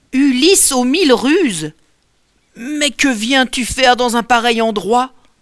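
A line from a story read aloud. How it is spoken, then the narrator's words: Exclaiming. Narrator (French): s'exclame Achille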